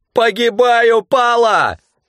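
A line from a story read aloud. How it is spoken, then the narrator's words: Yelling. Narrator (Russian): орал Митька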